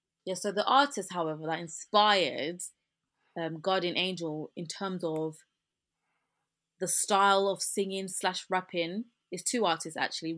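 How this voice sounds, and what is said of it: British English accent. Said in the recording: “So my accent is like this. I'm English, I'm British, so this is my accent.”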